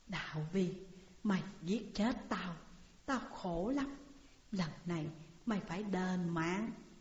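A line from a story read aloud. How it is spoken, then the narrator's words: Soft whisper in ear. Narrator (Vietnamese): tiếng nói khe khẽ ở bên tai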